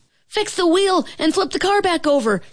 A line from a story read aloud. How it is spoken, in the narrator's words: shouted the red car's driver to his team